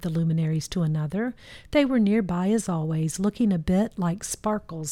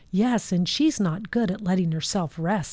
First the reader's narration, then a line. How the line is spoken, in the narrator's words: said